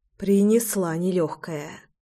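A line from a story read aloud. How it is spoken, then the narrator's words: Sighing. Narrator (Russian): вздохнула я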